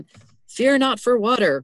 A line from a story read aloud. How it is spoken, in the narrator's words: cried a third